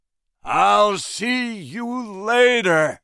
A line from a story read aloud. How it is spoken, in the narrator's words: shouted Jack